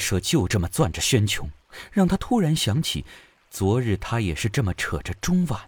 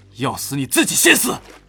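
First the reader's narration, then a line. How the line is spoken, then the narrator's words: Cold, disgusted roar. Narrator (Chinese): 玉社厌恶地冷声怒吼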